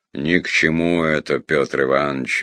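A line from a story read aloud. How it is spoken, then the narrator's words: Carefree purr. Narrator (Russian): беззаботно промурлыкал Мыльников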